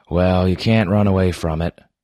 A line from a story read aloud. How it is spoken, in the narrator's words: I said